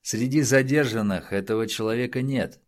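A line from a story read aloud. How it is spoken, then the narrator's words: Gloomy. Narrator (Russian): мрачно прокомментировал Мадзони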